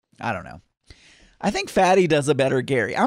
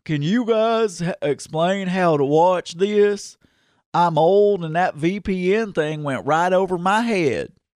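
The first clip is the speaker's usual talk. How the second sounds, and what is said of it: Southern-accented impression of a man. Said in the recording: “That sounded nothing like Gary. I'm Southern ... I'm not good at impersonations, even if they have a Southern accent.”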